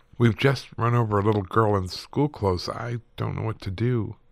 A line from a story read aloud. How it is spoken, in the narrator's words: he said in a shaky voice